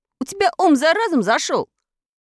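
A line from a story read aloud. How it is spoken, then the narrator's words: Yelling at the top of lungs. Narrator (Russian): заорал во все горло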